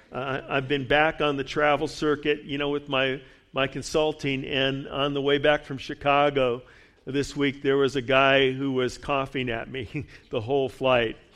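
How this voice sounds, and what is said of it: Slightly gravelly, rough voice. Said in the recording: “voice here this morning, a little bit gravelly”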